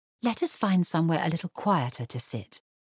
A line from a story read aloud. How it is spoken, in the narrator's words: murmured Charlotte soothingly